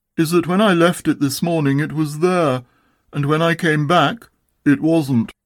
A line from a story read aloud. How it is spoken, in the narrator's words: said Eeyore in his most melancholy voice